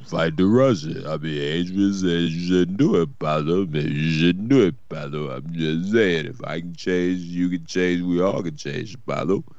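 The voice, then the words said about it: Rocky Balboa character voice. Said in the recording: “If you guys ever need a Rocky Balboa, I'm your man... accent.”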